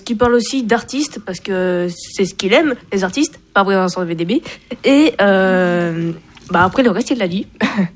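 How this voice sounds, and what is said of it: Strong northern French accent. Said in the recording (French): “T'as l'accent du Nord, là, quelque chose de bien... l'accent du Nord, bien.”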